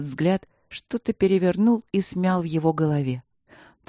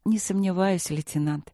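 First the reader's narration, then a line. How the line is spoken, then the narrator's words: Soft woman. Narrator (Russian): мягко сказала Василина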